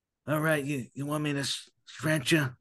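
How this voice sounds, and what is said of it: Poor imitation of another person's voice. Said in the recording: “It almost sounds like a bad Godfather impersonation”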